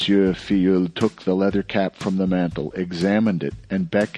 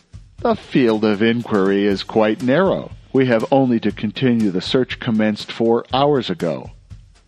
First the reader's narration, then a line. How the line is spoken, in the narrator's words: The deputy prosecutor exclaimed with a leer